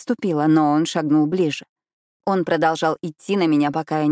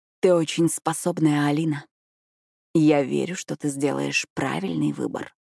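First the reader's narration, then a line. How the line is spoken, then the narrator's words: Whispered. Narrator (Russian): прошептал он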